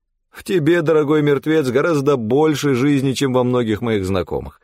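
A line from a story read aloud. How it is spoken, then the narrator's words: Laughing. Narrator (Russian): рассмеялся Данте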